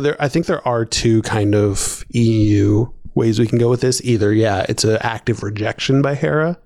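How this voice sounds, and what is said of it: Usual voice. Nothing is said of it.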